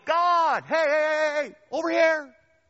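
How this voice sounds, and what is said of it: Yelling. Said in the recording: “I'm yelling,”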